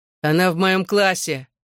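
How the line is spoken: Shouted. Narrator (Russian): выкрикнул Ронан

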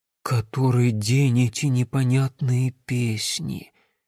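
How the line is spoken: Sigh. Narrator (Russian): Льдиния вздохнула

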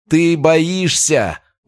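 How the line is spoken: Shout. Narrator (Russian): выкрикнул он

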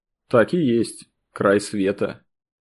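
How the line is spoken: Thoughtful. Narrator (Russian): Почему-то задумчиво произнес Сергей

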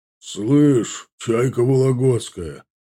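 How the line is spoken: Deep booming bass. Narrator (Russian): забасил бугай на бабулю

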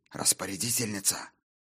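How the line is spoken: Hissed. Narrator (Russian): прошипела Эвис

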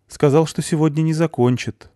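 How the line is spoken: Sighing. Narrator (Russian): вздохнула хозяйка

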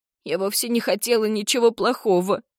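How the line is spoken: Whining. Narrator (Russian): скулит Джардин

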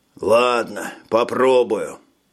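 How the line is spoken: Sighing. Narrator (Russian): вздохнул Гоберли

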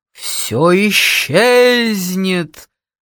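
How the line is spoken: Sepulchral wail. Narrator (Russian): загробным голосом завыла я

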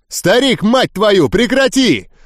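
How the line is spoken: Yelled. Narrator (Russian): заорал

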